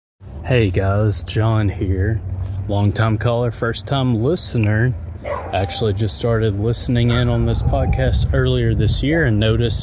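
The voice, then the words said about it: Laid-back drawl, possibly Southern accent. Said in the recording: “what is that accent that ... has? ... Southern? ... There's just like a laid back drawl about it.”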